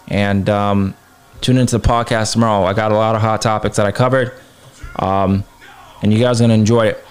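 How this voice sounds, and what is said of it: Tired, strained voice. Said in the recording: “My voice is kind of a little tired, a little shot.”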